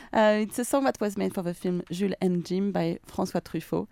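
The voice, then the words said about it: French accent speaking English. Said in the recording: “Sorry for my French accent.”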